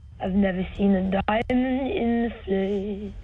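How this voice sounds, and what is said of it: Sings imitating a pop singer. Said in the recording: “You're amazing at your celebrity musical impressions ... doing a Lorde impression”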